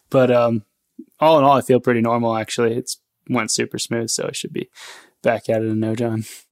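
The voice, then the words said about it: Slightly weird-sounding voice. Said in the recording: “I got about a 2-inch incision through my bottom of my throat here. So my voice sounds a little weird”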